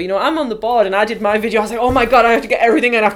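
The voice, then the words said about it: Toned-down broad County Durham accent. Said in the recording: “My accent's horrid. My accent is awful. I've got a very, very broad County Durham accent. I am playing it down for the benefit... No, I'm Northern. I'm from Northeast England.”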